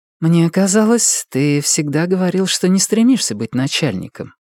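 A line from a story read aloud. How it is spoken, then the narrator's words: Soft objection. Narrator (Russian): мягко возражает она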